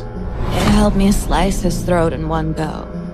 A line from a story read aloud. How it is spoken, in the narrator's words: murmured